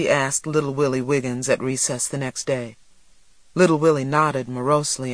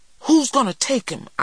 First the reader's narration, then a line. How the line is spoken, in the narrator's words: I cried